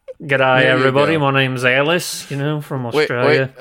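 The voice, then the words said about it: Put-on Australian accent. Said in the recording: “That's Australian cultural appropriation that you're doing right there”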